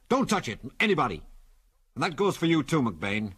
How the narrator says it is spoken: he went on curtly

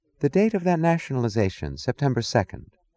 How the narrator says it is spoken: asked, her voice wistful

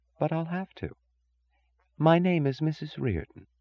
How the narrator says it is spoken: she said softly

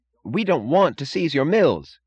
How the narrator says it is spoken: cried Mooch

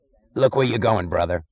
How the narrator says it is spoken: snarled some voice

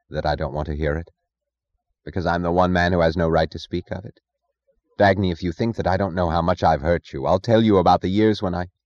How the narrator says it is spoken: Her voice flat, she said only

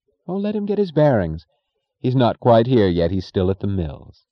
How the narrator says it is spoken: his wife said gaily

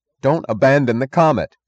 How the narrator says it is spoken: cried Eddie Willers

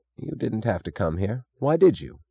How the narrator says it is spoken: said Taggart sullenly

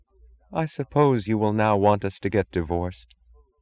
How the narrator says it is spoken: She asked in a dead voice that had the incongruous sound of common sense

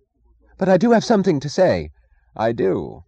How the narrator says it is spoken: he cried hastily in answer to the angry frown on Reardon's face

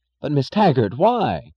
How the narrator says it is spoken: cried Chick Morrison

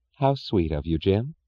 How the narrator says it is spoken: she said sweetly

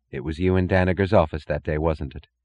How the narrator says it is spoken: she asked

